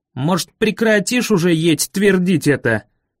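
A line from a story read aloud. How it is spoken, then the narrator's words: Angry shout. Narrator (Russian): Заорал на меня Дэви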